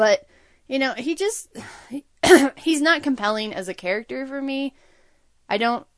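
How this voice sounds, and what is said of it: Usual voice. Nothing is said of it.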